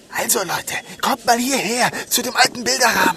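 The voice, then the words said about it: Whispering. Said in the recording (German): “ich bin ja der Flüsterer.”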